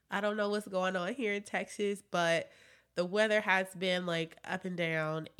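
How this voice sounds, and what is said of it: Stuffy, congested voice. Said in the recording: “I sound a little stuffy, it's because I am... sinuses has been doing all the things”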